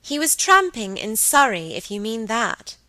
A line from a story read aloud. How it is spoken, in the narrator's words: said Margaret, pacing away rather crossly